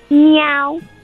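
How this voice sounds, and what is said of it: Imitates a cat's meow. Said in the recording (Spanish): “es igualito que un gato. Yo pensé que era un gato.”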